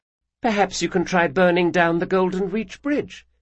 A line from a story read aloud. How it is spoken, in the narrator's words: Sabitha said sweetly